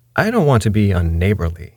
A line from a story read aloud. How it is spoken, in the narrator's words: he said